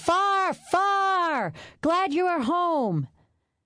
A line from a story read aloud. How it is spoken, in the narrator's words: The boys shouting